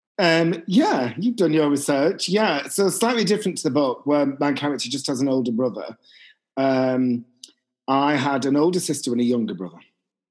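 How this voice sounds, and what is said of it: Bolton English accent. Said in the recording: “you grew up in Bolton, I'm assuming, bearing in mind your accent”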